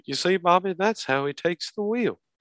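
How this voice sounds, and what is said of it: Hank Hill cartoon voice impression. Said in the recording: “that was a good impression, by the way ... I try to do really well with my Mike Judge impressions”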